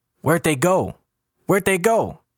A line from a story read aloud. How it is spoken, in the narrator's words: People outside are yelling